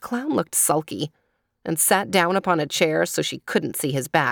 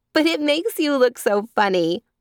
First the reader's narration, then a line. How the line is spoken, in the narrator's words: said Jane Gladys, laughing until her eyes were moist with tears